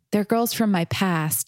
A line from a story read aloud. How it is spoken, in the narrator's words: answered sadly